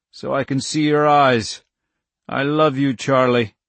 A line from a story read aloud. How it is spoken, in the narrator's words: he croaked